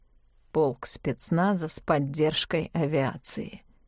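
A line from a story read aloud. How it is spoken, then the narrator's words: Mutter. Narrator (Russian): пробормотал Мартин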